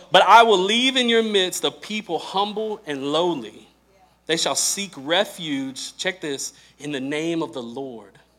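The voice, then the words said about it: Southern American twang. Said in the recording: “my southern twang might be messing that word up a little bit”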